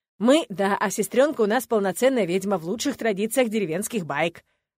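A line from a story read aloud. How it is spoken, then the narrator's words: Smirking snort. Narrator (Russian): хмыкнул брюнет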